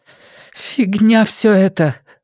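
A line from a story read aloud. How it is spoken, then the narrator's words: Trembling voice. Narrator (Russian): дрожащим голосом сказала она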